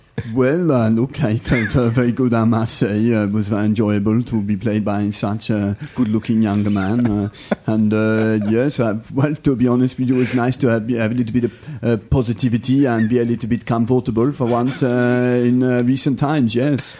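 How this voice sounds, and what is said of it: Imitates another person's voice. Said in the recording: “that impression,... That's pretty good.... That's impressive.... that is real good stuff.”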